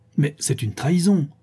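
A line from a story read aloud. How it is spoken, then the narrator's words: Exclaiming. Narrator (French): s'écria monsieur de Caussade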